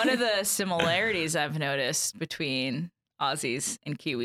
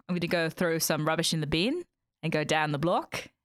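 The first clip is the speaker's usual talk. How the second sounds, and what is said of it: Decent put-on Australian accent. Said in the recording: “It's not a bad Australian accent.”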